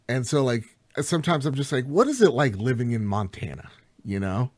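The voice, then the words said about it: New Jersey accent. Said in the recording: “I'm from Jersey. You could tell from my accent.”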